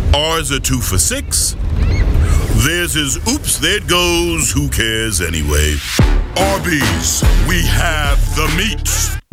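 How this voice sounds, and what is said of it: Deep, strong commercial announcer voice. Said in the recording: “Nice deep voice, nice strong with the Arby's.”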